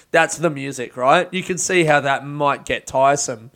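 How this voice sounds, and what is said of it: Usual voice. Nothing is said of it.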